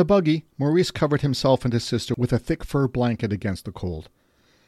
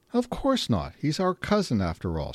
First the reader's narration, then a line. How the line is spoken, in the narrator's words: answered with a little laugh